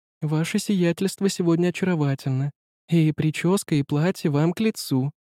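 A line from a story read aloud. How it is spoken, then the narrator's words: Cooing. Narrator (Russian): проворковала Жанна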